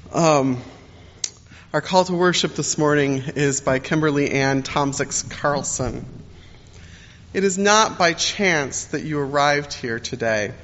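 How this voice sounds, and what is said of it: Slightly deeper voice than usual. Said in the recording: “my voice sounds a little deeper this morning, yes, it's true. I'm getting over a cold.”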